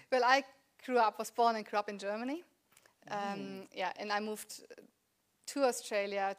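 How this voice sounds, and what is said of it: Slight German accent in English. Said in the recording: “you have a little bit of an accent ... But the accent doesn't leave me”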